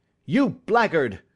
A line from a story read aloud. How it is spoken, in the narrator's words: I shouted, beside myself with rage